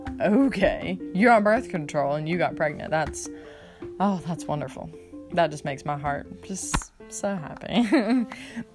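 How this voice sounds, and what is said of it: Sarcastic delivery. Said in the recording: “Not really, I'm being sarcastic,”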